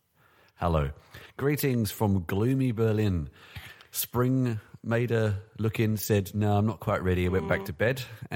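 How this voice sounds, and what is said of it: Congested voice from a cold. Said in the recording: “as you can hear, I have a bit of a cold”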